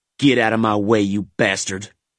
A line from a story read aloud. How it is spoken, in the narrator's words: growled